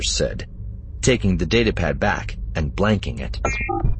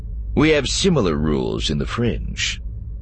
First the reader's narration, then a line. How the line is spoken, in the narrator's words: Flynn said dryly